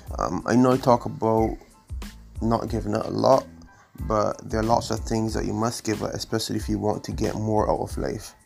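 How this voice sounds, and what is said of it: Congested, slightly strained voice. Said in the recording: “my voice isn't 100%. I'm fighting some allergies and some mucus buildup”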